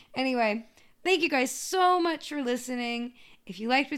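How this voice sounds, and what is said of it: Usual voice. Nothing is said of it.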